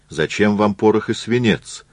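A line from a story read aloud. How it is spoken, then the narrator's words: Plain. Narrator (Russian): спросил Львов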